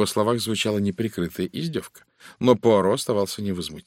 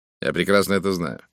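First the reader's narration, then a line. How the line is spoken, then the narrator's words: Cold reply. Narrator (Russian): холодно отозвался лорд Эджвор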